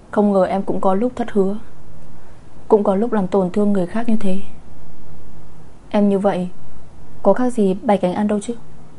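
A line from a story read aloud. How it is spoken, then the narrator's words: Sighing. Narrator (Vietnamese): cô lại thở dài tiếp tục một tiếng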